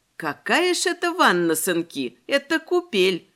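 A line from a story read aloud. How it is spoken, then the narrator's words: Chuckle under breath. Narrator (Russian): Хохотнула я себе под нос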